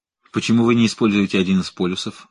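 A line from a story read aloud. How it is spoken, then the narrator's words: Plain. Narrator (Russian): спросил Конос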